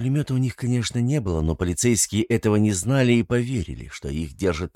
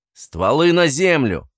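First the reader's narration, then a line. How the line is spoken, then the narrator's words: Barking. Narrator (Russian): рявкнул Александр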